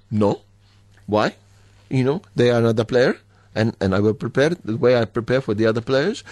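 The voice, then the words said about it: Imitates another person's accent. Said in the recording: “Very good accent. ... That's a very good impersonation.”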